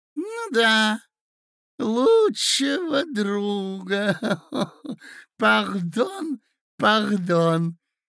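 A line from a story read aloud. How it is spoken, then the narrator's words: Lisping. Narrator (Russian): шепелявит князь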